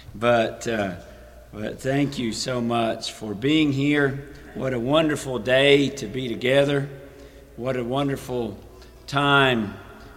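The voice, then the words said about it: Weakened, partly lost voice. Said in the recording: “please forgive my voice. It will eventually come back, I hope.”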